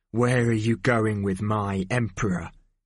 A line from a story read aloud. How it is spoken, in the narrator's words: growled